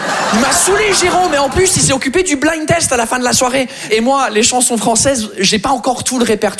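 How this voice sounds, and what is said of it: Usual voice. Nothing is said of it.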